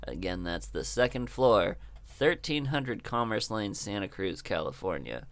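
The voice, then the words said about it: Smooth public radio announcer voice. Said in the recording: “my NPR voice”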